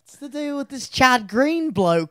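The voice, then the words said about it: Put-on London English accent. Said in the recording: “that one fan from London ... What was that accent?”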